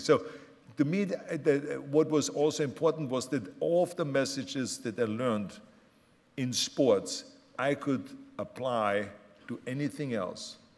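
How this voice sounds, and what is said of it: Austrian German accent. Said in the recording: “someone like myself that comes from Austria with a German accent”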